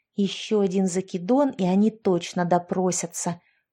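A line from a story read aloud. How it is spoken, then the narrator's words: Hissed. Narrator (Russian): прошипела Яшка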